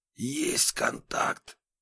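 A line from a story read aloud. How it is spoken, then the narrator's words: Whispered. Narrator (Russian): прошептал Разуваев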